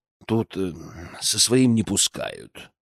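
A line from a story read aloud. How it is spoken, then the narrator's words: Gruff mutter. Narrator (Russian): Он буркнул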